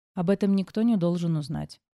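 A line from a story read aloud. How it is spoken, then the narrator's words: Calm reply. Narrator (Russian): спокойно отозвалась я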